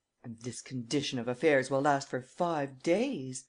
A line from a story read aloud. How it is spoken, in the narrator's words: exclaimed Miss Nelly Underdown